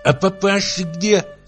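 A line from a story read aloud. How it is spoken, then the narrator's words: Lisping question. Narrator (Russian): спросила она шепелявя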